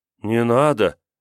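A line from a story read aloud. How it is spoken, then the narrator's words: Sighing. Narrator (Russian): Грета вздохнула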